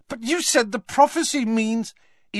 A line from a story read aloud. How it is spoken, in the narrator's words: spluttered Harry